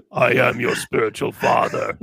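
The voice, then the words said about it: Darth Vader character voice impression. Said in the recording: “my Darth Vader imitation ... I'm not going to get any voiceover jobs anytime soon”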